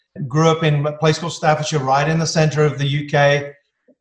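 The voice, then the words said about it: English accent. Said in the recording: “I'm English, as most people can tell from my accent.”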